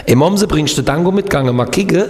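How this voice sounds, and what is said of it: Put-on regional dialect from Kehl. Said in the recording (German): “was machst du in deinem Dialekt? ... wie geht nochmal Kehl am Rhein, wo ich gelebt habe?”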